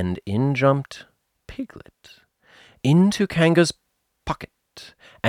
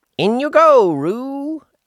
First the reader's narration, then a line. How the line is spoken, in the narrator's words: Rabbit said in a loud voice